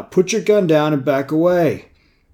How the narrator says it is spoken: Malcolm called out

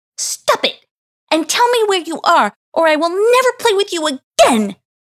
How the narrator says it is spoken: She screamed

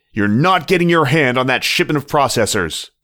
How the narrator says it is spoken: the fox shouted

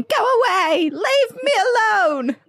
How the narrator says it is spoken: a little fourth to seventh grader, me screaming

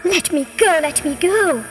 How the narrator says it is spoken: cried the snake, who was most surprised and alarmed by the rabbit's trickery

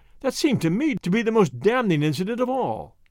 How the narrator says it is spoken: I cried

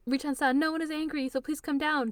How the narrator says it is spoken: Toru yells

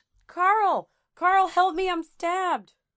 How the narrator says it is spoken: Pleading, Kitty screamed

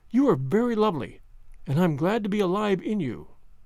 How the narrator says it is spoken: she murmured

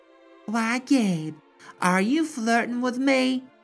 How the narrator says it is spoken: Laughing, the man insisted

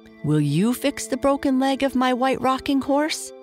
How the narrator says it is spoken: asked Dave eagerly

